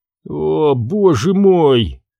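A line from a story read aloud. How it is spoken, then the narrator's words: Moaning. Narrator (Russian): стонал Буонаделла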